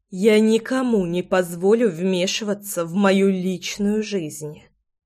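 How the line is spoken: Crisp, through clenched teeth. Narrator (Russian): четко процедила я

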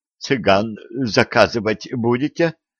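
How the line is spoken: Suddenly husky wheeze. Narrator (Russian): внезапно осевшим голосом просипел Половой

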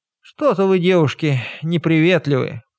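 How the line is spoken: Slight sigh. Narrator (Russian): мелко вздохнула Горн

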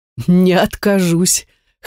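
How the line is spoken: Chuckling. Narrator (Russian): хохотнул Ривет

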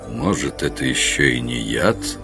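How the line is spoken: Gloomy remark. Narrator (Russian): мрачно заметил Гарривиль

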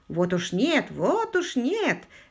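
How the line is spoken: Cheerful veteran reply. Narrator (Russian): весело откликнулся ветеран

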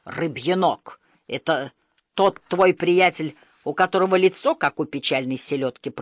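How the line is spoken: Booming. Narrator (Russian): прогудел Стоик

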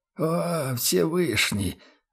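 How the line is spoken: Rabbi's anguished sigh. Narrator (Russian): с тоской вздохнул раввин

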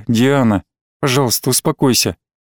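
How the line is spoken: Tired pleading. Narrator (Russian): устало попросил я

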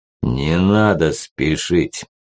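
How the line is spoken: Deep monstrous bass. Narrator (Russian): пробасил этот жуткий монстр

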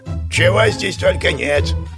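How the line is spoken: Snorted. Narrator (Russian): фыркнул гном

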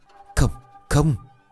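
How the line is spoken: Stammering. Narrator (Vietnamese): Tôi lắp bắp

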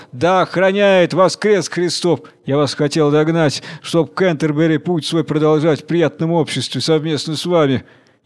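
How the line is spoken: Shouting while riding. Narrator (Russian): на скаку кричал

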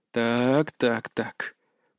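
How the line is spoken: Drawling. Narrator (Russian): протянул я

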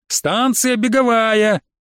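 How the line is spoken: Conductor shouting after. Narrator (Russian): крикнул нам вдогонку контролер из тамбура

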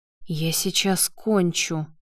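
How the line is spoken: Whisper. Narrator (Russian): прошептал Лео

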